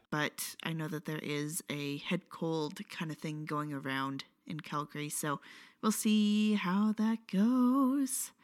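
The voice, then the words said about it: Slightly off, sick-sounding voice. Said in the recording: “I am coming down with something, so I apologize if my voice sounds a little weird.”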